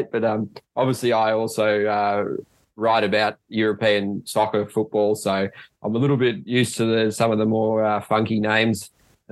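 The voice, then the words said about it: Australian accent. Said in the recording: “sound a bit rough in the Aussie accent”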